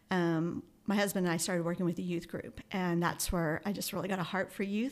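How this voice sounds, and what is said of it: Emotional, choked-up voice. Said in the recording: “I'm getting emotional again.”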